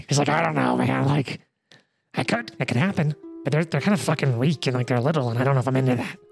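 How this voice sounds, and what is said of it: Higher-pitched goblin character voice. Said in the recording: “now I gotta find my goblin voice as separate from my kobold voice. Here we go, goblin. ... So kobold was down here, goblin's up here.”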